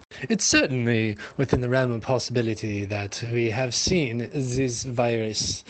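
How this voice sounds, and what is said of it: Put-on accent that shifts. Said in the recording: “I don't know why my accent has changed back and forth”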